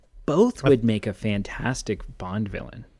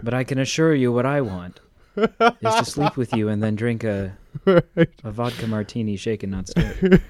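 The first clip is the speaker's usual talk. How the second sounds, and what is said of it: Imitates another person's voice. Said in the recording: “It was a terrible. That was my first attempt ever at a Liam Neeson accent.”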